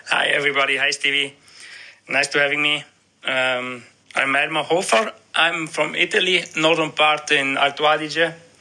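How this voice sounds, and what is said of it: German-sounding accent. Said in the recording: “you definitely sound German, more German than Italian”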